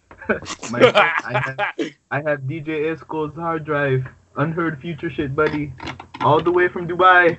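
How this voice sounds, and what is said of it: Put-on mixed foreign accent. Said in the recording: “What accent is this? ... I'm mixing a lot of them. ... sound like Black Panther.”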